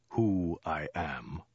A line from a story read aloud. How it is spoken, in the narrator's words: he said at length in a low, dead voice